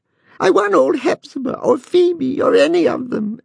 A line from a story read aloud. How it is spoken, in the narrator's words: answered Ned, sobbing